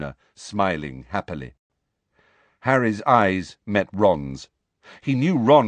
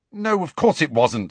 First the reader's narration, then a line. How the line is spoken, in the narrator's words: said Harry impatiently